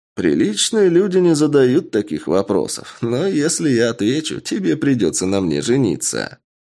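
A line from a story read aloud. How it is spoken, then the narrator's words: Short laugh. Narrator (Russian): хохотнул Сав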